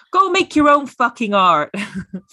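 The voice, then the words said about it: Poor put-on American accent. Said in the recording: “Notice my rubbish American accent.”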